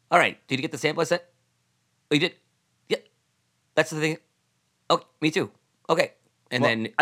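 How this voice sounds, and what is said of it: Halting impression, clipped sentence fragments. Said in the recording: “he never gets a full sentence out ... your impression”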